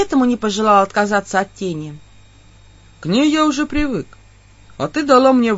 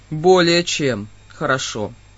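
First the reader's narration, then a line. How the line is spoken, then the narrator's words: Sudden odd snort. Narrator (Russian): Вдруг странно хмыкнул Гор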